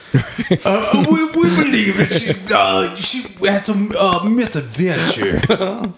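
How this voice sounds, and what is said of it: Bad fake British accent. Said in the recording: “that's the worst British accent I can do.”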